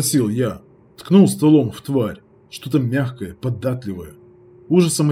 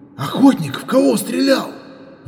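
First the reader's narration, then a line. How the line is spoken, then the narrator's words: Breathless. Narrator (Russian): выдохнул шутер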